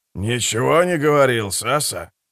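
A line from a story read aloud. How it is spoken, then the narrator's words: Elderly man replying. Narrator (Russian): ответил пожилой техник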